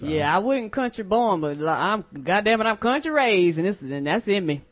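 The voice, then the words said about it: Strong Southern American country accent. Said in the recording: “where's your wife from? That is an accent. I tell you what, St. Louis, Mississippi?”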